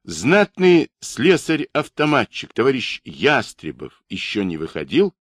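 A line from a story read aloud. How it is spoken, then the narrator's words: Loud question. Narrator (Russian): Кощеев громко спросил вахтера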